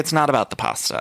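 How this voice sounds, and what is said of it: Side-mouthed, over-enunciated imitated voice. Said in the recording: “do an amazing Drew Barrymore impression ... it's just the side mouth ... put your mouth to the side and really over enunciate”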